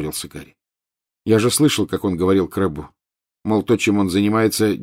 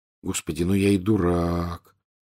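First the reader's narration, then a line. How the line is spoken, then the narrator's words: Quiet. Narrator (Russian): тихо произнес он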